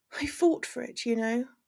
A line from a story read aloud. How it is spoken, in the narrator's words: she says quietly